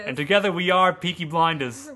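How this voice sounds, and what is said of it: Put-on English accent. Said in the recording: “I can't take your accent seriously.”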